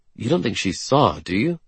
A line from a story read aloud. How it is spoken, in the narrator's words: I murmur